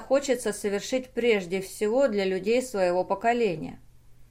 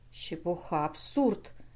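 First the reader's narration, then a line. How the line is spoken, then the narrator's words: Distinct pained mutter. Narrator (Russian): внятно пробормотал Толчонов, скривясь, как от зубной боли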